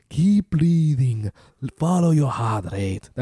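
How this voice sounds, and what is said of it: Imitated accent sounding African, like Rafiki. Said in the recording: “That's more African. That's not at all his accent. ... why are you Rafiki? ... It's a tough accent to do.”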